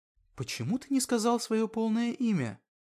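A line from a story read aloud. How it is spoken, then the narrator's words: Quiet question. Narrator (Russian): спросила Эльвира тихонько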